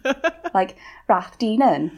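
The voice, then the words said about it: Put-on Welsh accent. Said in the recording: “try and do it with a Welsh accent. Because then at least it sounds a bit cooler.”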